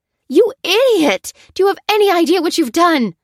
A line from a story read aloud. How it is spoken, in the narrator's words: cried Lucy, with rage